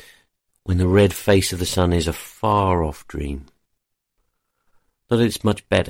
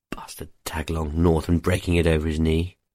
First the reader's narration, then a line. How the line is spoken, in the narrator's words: he mutters to nobody